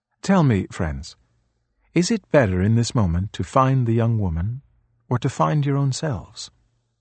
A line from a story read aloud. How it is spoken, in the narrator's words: The Buddha looked calmly at the young men and asked